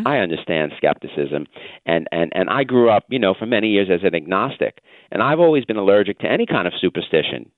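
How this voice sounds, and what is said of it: Nasal New York accent. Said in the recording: “as your listeners can hear from listening to me for just 2 minutes, I'm a New Yorker. You know, you can tell, unfortunately, from my nasal New York accent”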